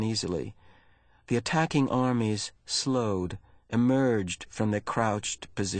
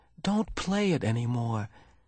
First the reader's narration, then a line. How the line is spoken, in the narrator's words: Jonas pleaded